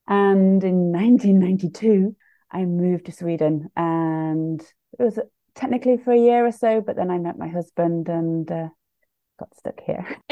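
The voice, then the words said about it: British English accent. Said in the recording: “hence the British accent”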